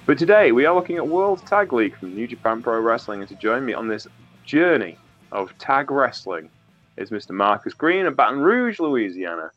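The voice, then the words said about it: Stuffy, congested, distant-sounding voice. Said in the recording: “I have a bad cold, so if I sound a bit distant and awful”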